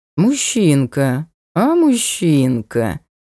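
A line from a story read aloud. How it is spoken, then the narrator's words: Affected drawl. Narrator (Russian): Манерно протянули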